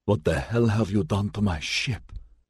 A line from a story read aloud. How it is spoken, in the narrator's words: whispered